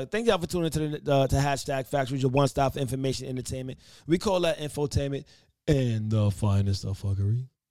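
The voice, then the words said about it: Announcer-style radio voice. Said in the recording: “my radio voice”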